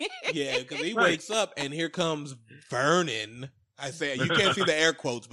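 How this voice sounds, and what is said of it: Usual voice. Nothing is said of it.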